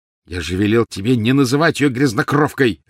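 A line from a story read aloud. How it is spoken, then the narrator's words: Angry bark. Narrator (Russian): рявкнул Гарри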